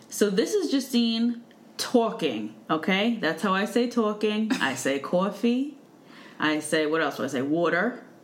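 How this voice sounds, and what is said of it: Thick New York accent. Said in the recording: “has a thicker, randomly New York accent... sounds like Fran Drescher”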